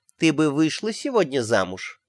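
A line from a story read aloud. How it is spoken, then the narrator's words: Nanny's detached, absent voice. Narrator (Russian): уточнила нянюшка каким-то отрешенным голосом, словно думала о чем-то другом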